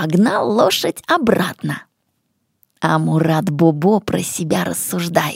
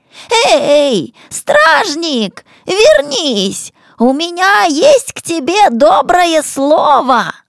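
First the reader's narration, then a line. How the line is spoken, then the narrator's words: Shouting. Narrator (Russian): И снова закричал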